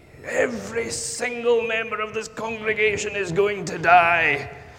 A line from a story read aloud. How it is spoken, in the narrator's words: he thundered to the congregation